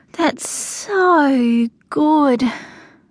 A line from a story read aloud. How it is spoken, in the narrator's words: I sighed